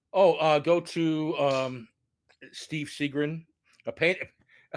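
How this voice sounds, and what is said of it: Lisping speech. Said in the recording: “I had a tooth pulled, so if my voice sounds funny, it's because I'm lisping now.”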